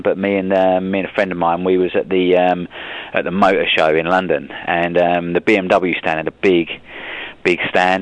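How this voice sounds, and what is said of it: Fast speech, British accent. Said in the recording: “Speaking very fast and in a British accent”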